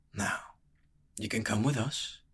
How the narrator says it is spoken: he whispered

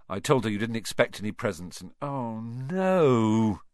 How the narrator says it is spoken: he groaned

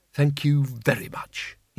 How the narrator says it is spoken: he said bitterly

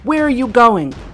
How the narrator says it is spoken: Jane shouted

